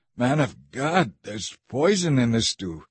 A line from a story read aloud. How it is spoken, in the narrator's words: they cried out